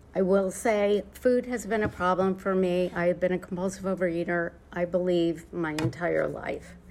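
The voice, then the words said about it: Choked-up, emotional voice. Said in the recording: “I'm sorry for getting choked up ... that's why I'm choked up”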